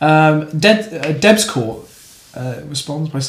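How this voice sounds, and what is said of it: Usual voice. Nothing is said of it.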